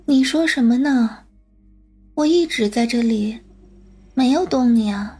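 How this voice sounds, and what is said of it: Faint, tiny whispering voice. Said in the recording (Chinese): “一个蚊子一样的声音小声的回答”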